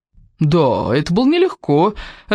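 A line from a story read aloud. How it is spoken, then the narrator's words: Laughing. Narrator (Russian): рассмеялся Кевин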